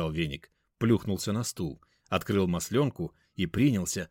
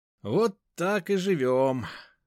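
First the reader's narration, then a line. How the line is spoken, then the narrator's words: Sighed. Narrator (Russian): вздохнул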